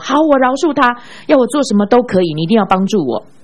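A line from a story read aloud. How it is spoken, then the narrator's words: Strange, loud shouting. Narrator (Chinese): 这个姊妹依然表现得怪里怪气的，大声喊着说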